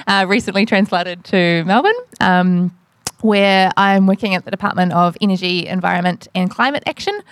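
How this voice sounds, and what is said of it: New Zealand accent. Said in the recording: “I'm a New Zealander, you can probably tell from my accent”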